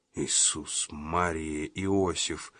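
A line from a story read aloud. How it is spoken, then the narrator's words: Whisper. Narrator (Russian): прошептал Джина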